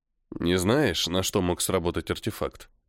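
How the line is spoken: Quiet question. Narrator (Russian): тихо спросил Постников

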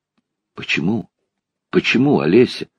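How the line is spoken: Repeated in a whisper. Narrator (Russian): твердил я шепотом

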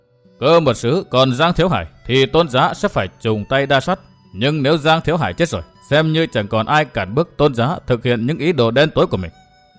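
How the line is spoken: Stern. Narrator (Vietnamese): Giang Thiếu Hải nghiêm giọng nói

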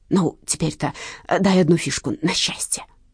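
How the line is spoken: Pitiful mutter. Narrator (Russian): жалостно бормотал

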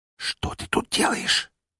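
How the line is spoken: Barely audible whisper. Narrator (Russian): едва слышно прошептала мне в ухо

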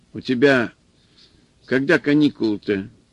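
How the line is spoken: Stern old woman asking. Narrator (Russian): спросила бабка строго

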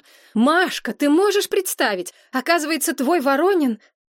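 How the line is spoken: Excited yelling. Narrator (Russian): Надежда заорала

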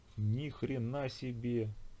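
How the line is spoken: Breathed out. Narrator (Russian): выдохнул Асхар

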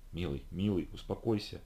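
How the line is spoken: Soft, restraining. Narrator (Russian): Райли мягко осадила меня

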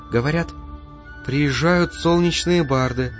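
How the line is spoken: Quiet, soft. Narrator (Russian): тихо сказала княжна

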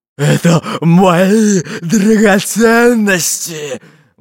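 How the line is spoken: Sudden growl, heavy man. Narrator (Russian): Вдруг зарычал толстый пират

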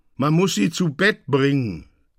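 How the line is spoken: Call. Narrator (German): rief eine Stimme

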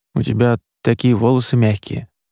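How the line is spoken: Quiet. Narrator (Russian): негромко сказал

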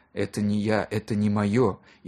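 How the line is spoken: Whisper. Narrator (Russian): шептал

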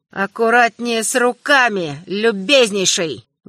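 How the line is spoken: Emperor's muffled voice. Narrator (Russian): глухо сказал император

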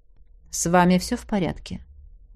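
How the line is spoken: Very soft question. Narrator (Russian): удивительно мягко спросил меня Макс

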